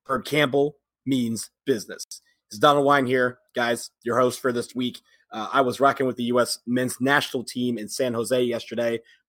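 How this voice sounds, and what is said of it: Hoarse, rough strained voice. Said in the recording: “why my voice sounds like an unfolded lawn chair”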